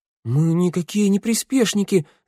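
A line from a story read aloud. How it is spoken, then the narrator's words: Squeaky. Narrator (Russian): запищала Санда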